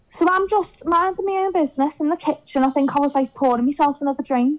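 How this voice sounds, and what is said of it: Strong Scouse accent. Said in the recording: “as Scouse as you can get ... my accent ... are you Scouse?”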